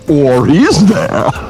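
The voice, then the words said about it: Imitates the movie villain Bane. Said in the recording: “That was my bane.”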